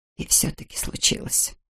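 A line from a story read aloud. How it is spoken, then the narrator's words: Whisper. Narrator (Russian): прошептала Нина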